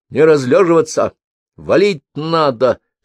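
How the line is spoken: Barking. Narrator (Russian): рявкнула Мальвинка

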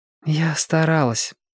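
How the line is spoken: Sighing. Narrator (Russian): вздохнула Белка

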